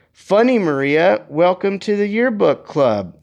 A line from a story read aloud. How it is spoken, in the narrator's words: jeered back